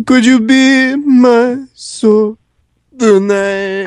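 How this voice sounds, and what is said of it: Low-pitched singing imitating another person. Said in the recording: “best Enrique impression ... if you are channeling him, you have to be down here”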